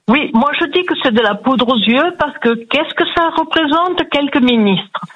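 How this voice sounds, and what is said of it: Sunny southern French accent. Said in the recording (French): “on entend à votre l'accent. Voix, le soleil, ça fait du bien.”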